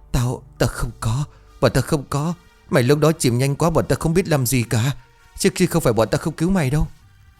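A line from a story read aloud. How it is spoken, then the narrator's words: Trembling stammer. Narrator (Vietnamese): Tôi run rẩy nhìn về thằng Hải rồi lắp bắp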